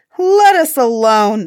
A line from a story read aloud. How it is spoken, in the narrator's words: the men cried